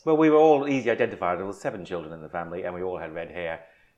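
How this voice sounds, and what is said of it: Irish accent. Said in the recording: “red-headed Irish accent, Irish yep. accent.”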